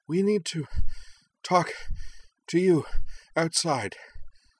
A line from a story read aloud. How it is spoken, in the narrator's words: Fu panted